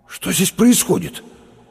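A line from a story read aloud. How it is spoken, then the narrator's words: Strained, forced out. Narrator (Russian): выдавил через минуту Лопатиков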